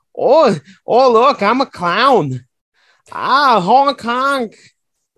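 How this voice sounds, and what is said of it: Exaggerated mocking Midwest accent. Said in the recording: “shitty Midwest accent”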